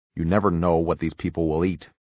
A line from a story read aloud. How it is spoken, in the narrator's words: she said firmly